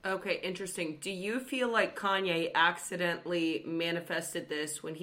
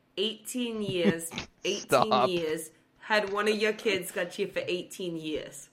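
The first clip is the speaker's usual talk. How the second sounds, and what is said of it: Put-on New York accent. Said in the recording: “why the New York accent? ... That's not anything what Kanye sounds like at all.”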